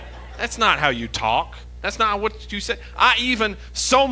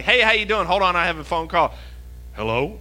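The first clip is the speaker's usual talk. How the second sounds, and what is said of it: Put-on telephone voice. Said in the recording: “telephone voice”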